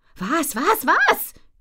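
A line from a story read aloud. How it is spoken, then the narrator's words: Shrieking. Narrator (German): kreische ich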